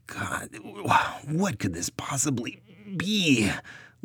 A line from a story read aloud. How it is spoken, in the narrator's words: Luke wheezed, dragging her last and largest suitcase into the cabin